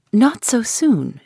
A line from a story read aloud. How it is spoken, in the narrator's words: she pleaded